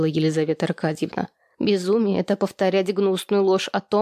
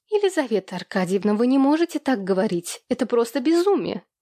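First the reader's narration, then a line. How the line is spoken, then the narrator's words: Trembling exclamation. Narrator (Russian): воскликнул Екатерина дрожащим голосом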